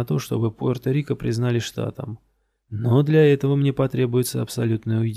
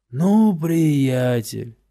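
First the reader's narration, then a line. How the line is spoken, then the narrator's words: Breathy exhale. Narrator (Russian): выдохнул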